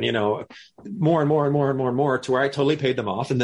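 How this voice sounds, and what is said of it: Usual voice. Nothing is said of it.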